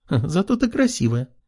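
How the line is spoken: Giggle. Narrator (Russian): хихикнула Кристина

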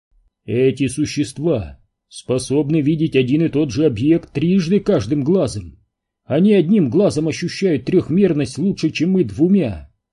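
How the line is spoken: Plain. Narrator (Russian): сказал Квентин

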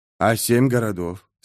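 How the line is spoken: Calm. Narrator (Russian): спокойно продолжал Кеннеб

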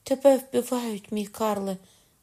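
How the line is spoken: Woman crying out. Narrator (Ukrainian): скрикнула жінка

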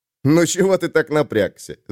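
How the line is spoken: Laughing. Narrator (Russian): засмеялся Айрунг

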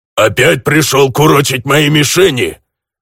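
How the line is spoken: Angry orc growl. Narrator (Russian): Злобно зарычал сквозь решетку орк

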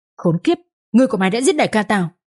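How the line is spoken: Harsh gritted voice. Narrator (Vietnamese): Một tên gằn giọng và nói

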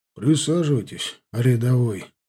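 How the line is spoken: Tired. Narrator (Russian): устало сказал Таран

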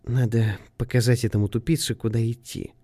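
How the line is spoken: Whisper. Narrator (Russian): шепнула Аврора Сеймору

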